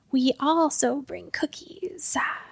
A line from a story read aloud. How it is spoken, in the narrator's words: hissed Burdock